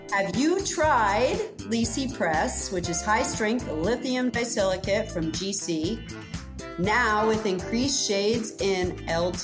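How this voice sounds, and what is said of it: Advertisement announcer voice. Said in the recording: “put on my ad voice.”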